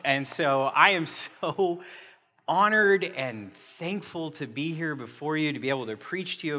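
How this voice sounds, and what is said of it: Very loud speaking voice. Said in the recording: “my voice is very loud”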